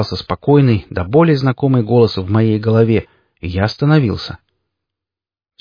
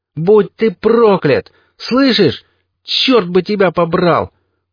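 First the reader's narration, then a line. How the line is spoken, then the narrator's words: Shout to the sky. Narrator (Russian): прокричал в небо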